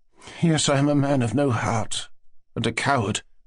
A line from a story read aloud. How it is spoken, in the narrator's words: he repeated gloomily